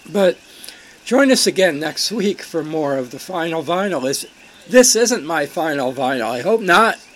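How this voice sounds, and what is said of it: Strained, fading voice. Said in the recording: “I am losing my voice steadily”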